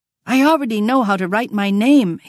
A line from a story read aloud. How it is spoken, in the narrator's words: pleaded